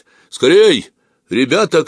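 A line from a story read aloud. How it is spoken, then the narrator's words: Group shouting. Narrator (Russian): кричали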